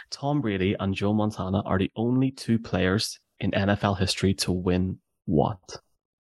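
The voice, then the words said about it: Speaks with a noticeable accent. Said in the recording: “that's my accent.”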